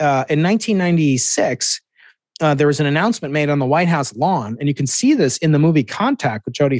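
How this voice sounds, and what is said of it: Usual voice. Nothing is said of it.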